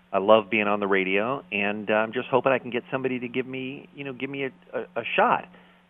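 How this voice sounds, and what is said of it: American accent. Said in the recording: “my dumb American accent”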